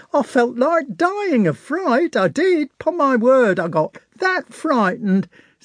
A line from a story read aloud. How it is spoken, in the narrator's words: said a young soldier with an enormous mouth, hardly refraining from laughing